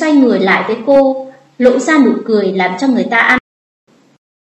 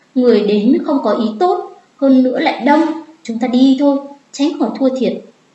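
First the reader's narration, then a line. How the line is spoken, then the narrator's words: Frightened low voice. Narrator (Vietnamese): Vừa nghĩ đến sẽ thua, trong lòng cô liền sợ hãi, thấp giọng nói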